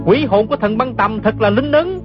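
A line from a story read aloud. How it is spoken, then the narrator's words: Joyful exclamation. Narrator (Vietnamese): gã không nén nổi sung sướng, la lên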